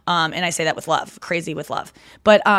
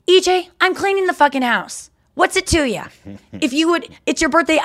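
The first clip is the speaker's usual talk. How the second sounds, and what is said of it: Impression of her mother, angry. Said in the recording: “doing an impression of my mom for my dad”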